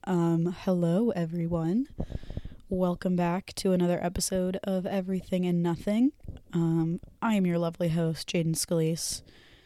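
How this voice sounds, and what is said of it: Hoarse, strained voice. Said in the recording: “I don't know if I'm losing my voice or something, but this is the voice that we are rocking with today ... my voice is, give me a minute”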